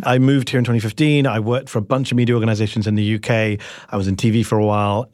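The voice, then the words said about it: British accent. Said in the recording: “People still ask me, what's the accent? I'm British.”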